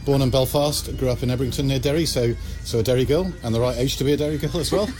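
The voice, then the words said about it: English accent. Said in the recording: “now you're listening to me with an English accent here”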